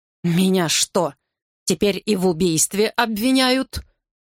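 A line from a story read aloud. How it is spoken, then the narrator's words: Hissing through teeth. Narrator (Russian): шипит Норт сквозь зубы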